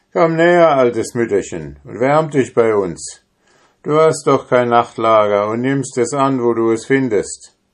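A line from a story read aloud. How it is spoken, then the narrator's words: Called out. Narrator (German): Einer von ihnen bemerkte die Frau und rief ihr zu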